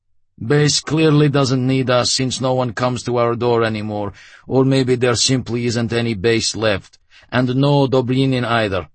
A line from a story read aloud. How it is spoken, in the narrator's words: the commander said flatly